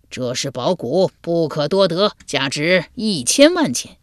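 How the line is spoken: Hearty laughter. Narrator (Chinese): 胡商听了，哈哈大笑，道

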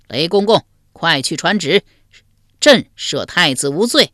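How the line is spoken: Loud shout. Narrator (Chinese): 真宗大声喊道

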